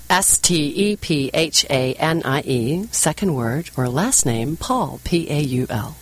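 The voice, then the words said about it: New Zealand accent. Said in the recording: “this is my New Zealand accent. I'm originally from New Zealand.”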